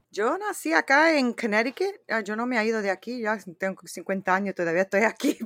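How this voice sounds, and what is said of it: Spanish spoken with non-native accent. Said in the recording (Spanish): “tiene su acento, ¿verdad? Con la dificultad del español”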